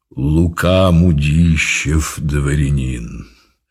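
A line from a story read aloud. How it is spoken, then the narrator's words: Deep solid bass. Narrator (Russian): произнес солидным басом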